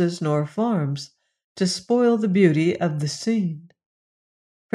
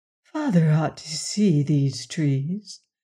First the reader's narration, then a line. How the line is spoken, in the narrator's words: she murmured